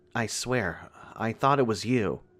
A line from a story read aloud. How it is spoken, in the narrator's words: Abby muttered feebly